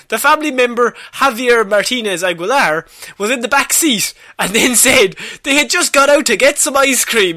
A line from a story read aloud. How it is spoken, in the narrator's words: he screamed from the back seat